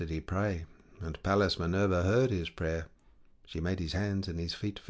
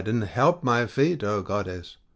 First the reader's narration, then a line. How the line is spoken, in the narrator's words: he cried